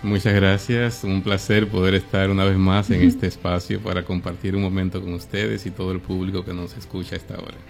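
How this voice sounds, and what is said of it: Announcer-like voice. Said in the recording (Spanish): “y la voz, yo la escucho y yo, ¡wow! Me encanta. ... ¿Tiene voz de locutor? ... Sí, la tiene.”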